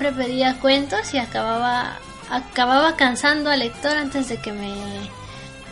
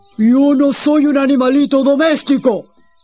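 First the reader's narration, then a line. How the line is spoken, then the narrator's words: Growling lion retort. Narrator (Spanish): replicó el león, soltando otro gruñido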